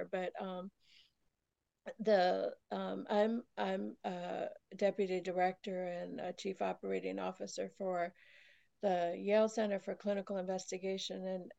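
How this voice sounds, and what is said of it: Voice cutting in and out. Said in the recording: “my voice is still a little in and out here”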